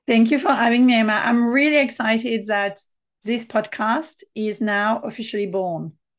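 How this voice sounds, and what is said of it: French accent. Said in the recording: “beautiful French accent.”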